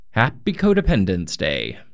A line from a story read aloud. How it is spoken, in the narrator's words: Michael shouted a message on my answering machine